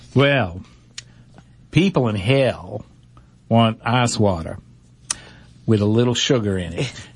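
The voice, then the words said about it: Put-on Southern accent. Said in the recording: “You have to say that with a Southern accent, though.”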